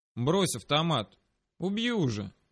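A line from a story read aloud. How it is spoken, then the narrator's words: Calm. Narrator (Russian): сказал я спокойно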